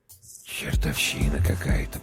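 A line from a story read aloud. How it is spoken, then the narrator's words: Whisper. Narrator (Russian): прошептал Прохор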